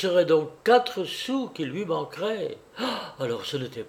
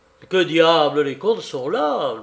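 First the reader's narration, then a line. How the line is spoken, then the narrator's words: Angry growl. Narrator (French): gronda, rageusement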